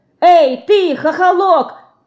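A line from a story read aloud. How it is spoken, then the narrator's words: Shouted. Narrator (Russian): крикнула ему Динка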